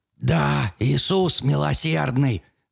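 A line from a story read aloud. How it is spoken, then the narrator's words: Breathless old man. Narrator (Russian): выдохнул старик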